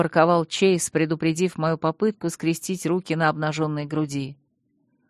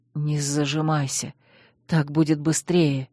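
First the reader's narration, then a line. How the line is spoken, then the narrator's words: Barely breathed out. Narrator (Russian): еле выдохнул он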